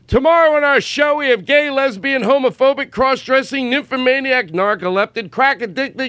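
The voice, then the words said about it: Impression of Todd Glass doing Phil Donahue. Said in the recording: “I do an impression of you doing him on stage? ... apparently I'm Todd Glass doing Phil Donahue ... a ridiculous, obscure, three-removed impression”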